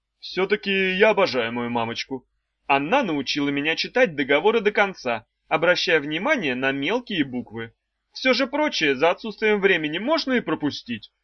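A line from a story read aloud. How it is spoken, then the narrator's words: Sudden exclamation. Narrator (Russian): внезапно воскликнул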